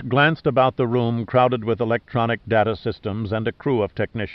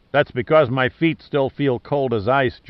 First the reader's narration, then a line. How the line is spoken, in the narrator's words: Giordino replied in his usual burlesque tone